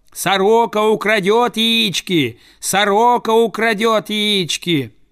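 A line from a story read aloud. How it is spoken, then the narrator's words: Shouted through cupped hands. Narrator (Russian): Приставив руку ко рту, он закричал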